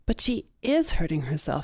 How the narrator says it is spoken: Sarah said

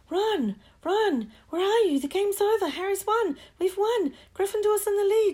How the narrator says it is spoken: shrieked Hermione, dancing up and down on her seat

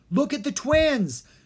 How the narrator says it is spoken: Dharma yelled as he and Jean struggled to hold Maldred

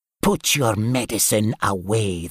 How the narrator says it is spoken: the goon snarled

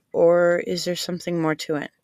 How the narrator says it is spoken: heaved a gentle sigh

